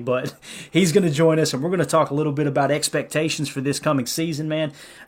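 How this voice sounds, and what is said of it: Rural Southern American accent. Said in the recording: “this redneck accent”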